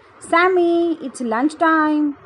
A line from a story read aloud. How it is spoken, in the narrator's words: Grandma called out